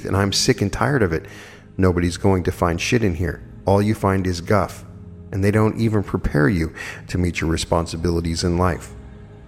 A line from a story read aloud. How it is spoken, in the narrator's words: my girlfriend said through clenched teeth